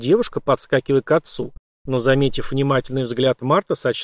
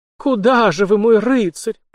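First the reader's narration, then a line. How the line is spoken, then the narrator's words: Girl almost moaning. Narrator (Russian): почти простонала ему в спину девушка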